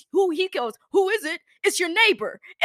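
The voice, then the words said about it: Old man's New York accent. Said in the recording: “some old guy with a New York accent”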